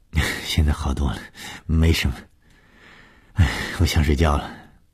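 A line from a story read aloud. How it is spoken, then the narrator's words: Female murmuring. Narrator (Chinese): 她喃喃地说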